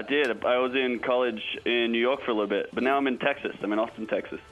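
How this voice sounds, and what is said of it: Slight American accent. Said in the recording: “a tiny bit of an American accent”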